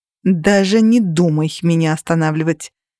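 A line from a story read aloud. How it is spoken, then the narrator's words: Snapped. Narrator (Russian): огрызнулась я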